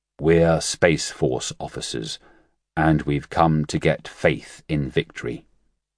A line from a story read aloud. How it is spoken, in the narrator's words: their leader said solemnly